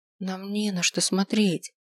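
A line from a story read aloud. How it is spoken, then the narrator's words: Whisper. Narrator (Russian): прошептала она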